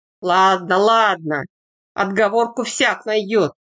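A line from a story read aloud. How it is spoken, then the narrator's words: Good-natured grumbling. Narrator (Russian): добродушно ворчал Бурый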